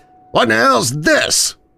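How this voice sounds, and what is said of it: Loud shouted character line. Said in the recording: “In a loud voice,”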